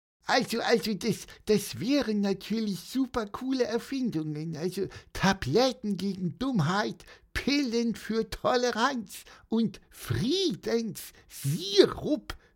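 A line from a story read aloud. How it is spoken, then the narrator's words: Squeaky voice. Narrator (German): piepste Pieper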